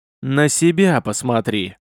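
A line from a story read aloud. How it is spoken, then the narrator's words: Loud straining wheeze. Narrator (Russian): с громким хрипом произнес красномордый, изо всех сил пытаясь вырваться из каменной западни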